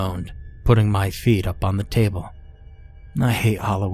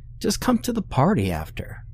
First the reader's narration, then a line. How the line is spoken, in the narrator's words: she whined